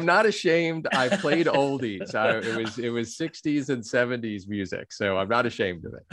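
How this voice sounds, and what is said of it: Radio DJ-style voice. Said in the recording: “you have a DJ voice”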